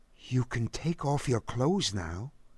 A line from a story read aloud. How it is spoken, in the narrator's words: he whispered